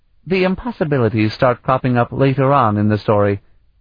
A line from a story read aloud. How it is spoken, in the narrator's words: Itania said dryly